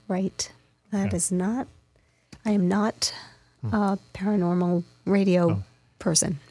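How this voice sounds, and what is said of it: Hoarse, strained voice. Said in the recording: “You sound that... She's not in tears, folks... I'm fighting a little laryngitis. Recuperating from it”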